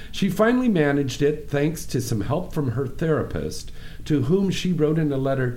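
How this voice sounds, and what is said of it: Usual voice. Nothing is said of it.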